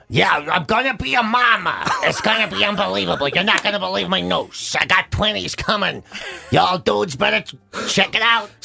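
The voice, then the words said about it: Imitates another person's voice. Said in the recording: “impersonation of you is so accurate ... It's exactly the same. Nobody knows which one of us is talking.”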